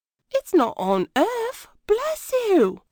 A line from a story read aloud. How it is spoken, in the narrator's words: replied the cook happily